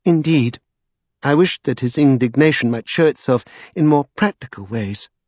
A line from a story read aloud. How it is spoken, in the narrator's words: she said coolly